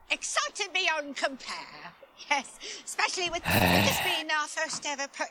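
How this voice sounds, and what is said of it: Good put-on English accent. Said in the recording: “She does a really good English accent. ... she's almost as good as me ... maybe ditch the transatlantic like accent”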